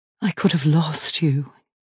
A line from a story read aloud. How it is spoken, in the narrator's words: he whispers